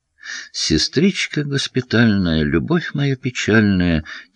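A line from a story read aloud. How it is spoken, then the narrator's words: Quiet singing under breath. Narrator (Russian): тихо пропел он под нос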